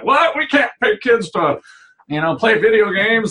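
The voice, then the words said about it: Old man voice. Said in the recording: “Grandpa voice.”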